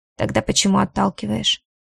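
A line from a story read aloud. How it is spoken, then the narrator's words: Cold interruption. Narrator (Russian): Перебивает и говорит холодно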